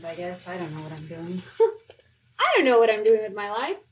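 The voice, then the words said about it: Slight put-on British accent. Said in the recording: “talking in a slightly British accent”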